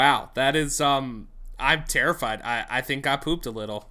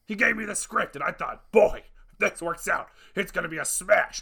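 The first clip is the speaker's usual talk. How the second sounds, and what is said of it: Imitates another person's voice. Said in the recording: “not a great Tim Curry impression, but a great Tim Curry as it impression”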